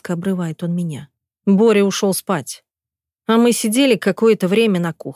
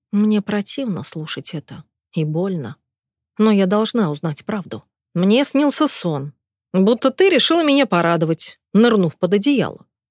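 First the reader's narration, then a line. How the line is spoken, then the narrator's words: Calm husband narrating. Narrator (Russian): продолжает спокойно свой рассказ супруг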